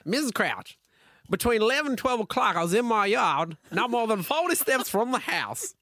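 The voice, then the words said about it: Put-on accent reading a quote. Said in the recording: “Can you do an accent too?”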